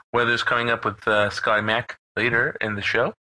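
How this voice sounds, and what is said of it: Whispery AM radio host voice. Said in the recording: “like my AM radio, like that whisper talk guy”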